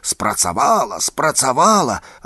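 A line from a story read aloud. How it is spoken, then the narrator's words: Shout across the forest. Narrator (Belarusian): Наркевіч як закрычыць на ўвесь лес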